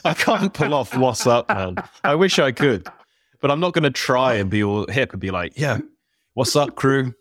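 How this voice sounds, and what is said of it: British accent. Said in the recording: “a proper British accent delivery of what's up”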